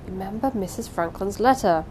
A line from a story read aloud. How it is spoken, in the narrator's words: she whispered to him in warning tones